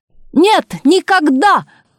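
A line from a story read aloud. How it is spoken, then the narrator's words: Loud shout from the hall. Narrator (Russian): громко крикнула из зала Олимпиады Савельевна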